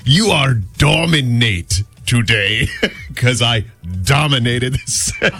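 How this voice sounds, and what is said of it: Put-on Greek-sounding accent. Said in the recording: “It was much funnier with his Greek accent ... It sounded kind of Austrian ... It was a Balkan accent.”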